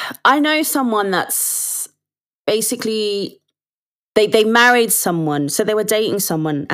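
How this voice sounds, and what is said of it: Usual voice. Nothing is said of it.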